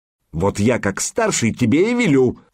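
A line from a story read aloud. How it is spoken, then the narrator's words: Angry barking. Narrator (Russian): зло рявкнул поганец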